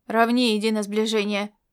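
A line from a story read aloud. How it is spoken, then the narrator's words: Growled command. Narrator (Russian): прорычал маршал, ведущий его звена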